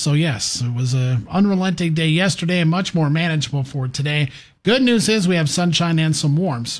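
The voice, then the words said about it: Slightly strained, worn voice. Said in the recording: “my voice is all of a sudden taking a little bit of a damage off of yesterday”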